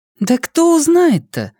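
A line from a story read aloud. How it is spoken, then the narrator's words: Naive exclamation. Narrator (Russian): простодушно воскликнула Лиана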